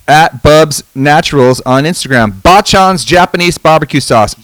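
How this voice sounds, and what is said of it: Loud yelling announcer voice. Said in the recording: “you're yelling... I go into my announcer voice”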